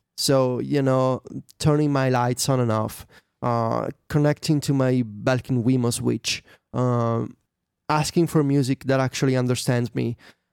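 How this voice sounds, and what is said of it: Italian accent. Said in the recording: “my you know Italian accent”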